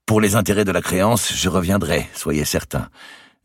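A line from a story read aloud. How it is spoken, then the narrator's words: Falsely jovial tone. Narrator (French): dit-il d'un ton jovial qui voulait donner le change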